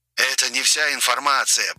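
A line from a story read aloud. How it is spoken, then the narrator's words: Hoarse priest over phone. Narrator (Russian): прохрипел голос священника в трубке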